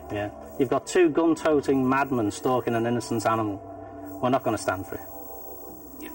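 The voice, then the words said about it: Unusual put-on accent. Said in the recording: “That's a really interesting accent.”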